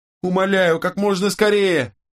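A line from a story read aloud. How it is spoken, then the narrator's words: Wailing scream. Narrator (Russian): завопила Дениза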